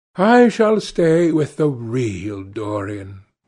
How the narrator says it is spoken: he said sadly

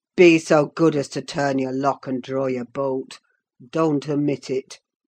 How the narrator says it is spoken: added in the strangest tone

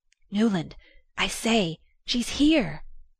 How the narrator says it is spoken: the best man whispered

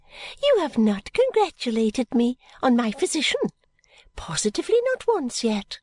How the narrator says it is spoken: said gaily

